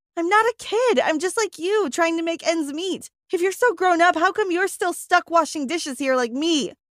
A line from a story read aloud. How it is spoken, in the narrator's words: I screamed